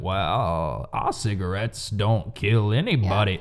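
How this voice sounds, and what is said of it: Southern-voiced impression of tobacco executive. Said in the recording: “he's like got that southern voice ... Was that a good impression? I feel like that was okay. ... Yeah, yeah, it was pretty good.”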